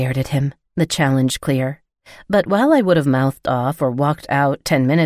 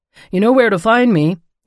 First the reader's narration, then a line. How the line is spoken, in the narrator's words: he called out